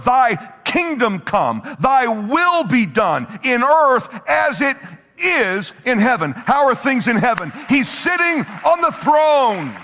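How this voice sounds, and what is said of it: Yelling preacher. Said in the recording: “sorry for yelling so much”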